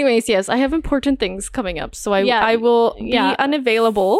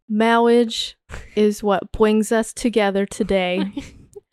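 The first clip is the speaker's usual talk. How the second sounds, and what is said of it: Princess Bride quote, accent fades midway. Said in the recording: “4 out of 10 on the accent. You started off strong... And then you gave up.”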